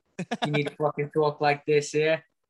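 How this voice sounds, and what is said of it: Put-on Boston accent. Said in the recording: “Now you turned it into like Boston. ... It's a lot choppier.”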